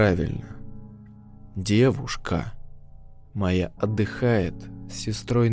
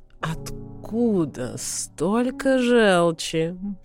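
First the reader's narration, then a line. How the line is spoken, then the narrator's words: Slow drawl, young woman. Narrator (Russian): медленно протянула девица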